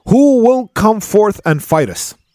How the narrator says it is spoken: they started shouting

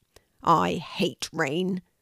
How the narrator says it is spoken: said Louie crossly

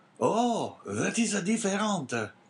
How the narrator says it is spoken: cried the abbé

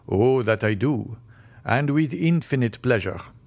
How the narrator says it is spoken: answered Albert

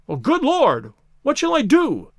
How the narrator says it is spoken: cried in an ecstasy of despair

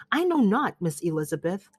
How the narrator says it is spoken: said he

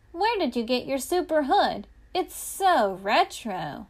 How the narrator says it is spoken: Super Fab asked him excitedly

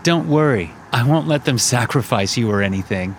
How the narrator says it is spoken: Connor said, laughing

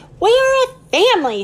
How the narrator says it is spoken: shouted Ollie

